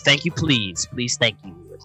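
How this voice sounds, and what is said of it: Strange put-on accent. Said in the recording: “very strange accent”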